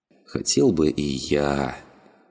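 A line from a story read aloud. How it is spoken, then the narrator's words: Young man drawling. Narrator (Russian): протянул молодой человек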